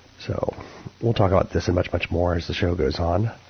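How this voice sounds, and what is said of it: Fried, strained voice. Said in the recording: “my voice is a little bit fried these days... I've been doing a little bit too much talking”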